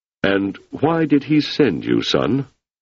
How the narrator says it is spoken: His voice slightly muffled, he said

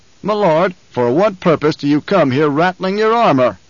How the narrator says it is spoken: the Baron roared

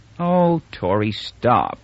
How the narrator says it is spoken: she said wearily

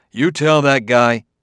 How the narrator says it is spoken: Bailey roared

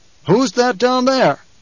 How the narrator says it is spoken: the Duke barked

